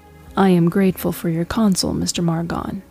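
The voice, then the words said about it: Lowered, quiet voice. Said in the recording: “she said in a lowered voice.”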